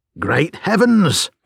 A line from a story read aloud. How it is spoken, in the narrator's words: cried the inspector